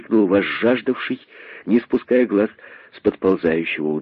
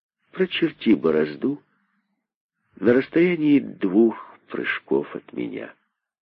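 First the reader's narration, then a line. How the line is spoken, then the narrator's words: Calm, thoughtful. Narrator (Russian): сказал задумавшийся спокойно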